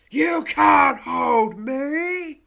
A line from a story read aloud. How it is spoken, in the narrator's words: bellows an angry voice, its fearsome resonance akin to a blast of thunder